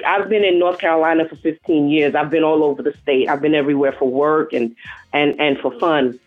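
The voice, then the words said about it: New York accent. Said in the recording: “You're from New York, aren't you? ... Your accent. ... I haven't lost it.”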